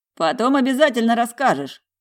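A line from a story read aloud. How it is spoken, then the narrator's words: Snort. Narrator (Russian): хмыкнул близнец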